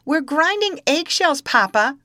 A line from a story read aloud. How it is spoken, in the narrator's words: cried Tom